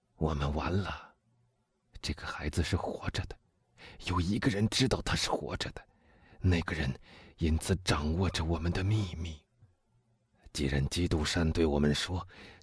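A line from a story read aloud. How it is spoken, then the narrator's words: Low, hushed voice. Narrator (Chinese): 压低了声音对他说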